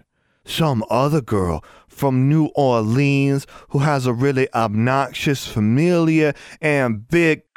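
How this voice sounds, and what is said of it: Low, breathless, sultry southern accent. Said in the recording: “she pitched her voice lower, trying to sound breathless and sultry and southern ... that's the worst accent I've ever heard”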